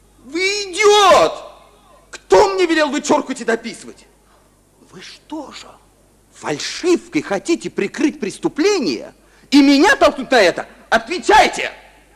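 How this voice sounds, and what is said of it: Angry shouting. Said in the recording (Russian): “не кричите на меня ... не кричите!”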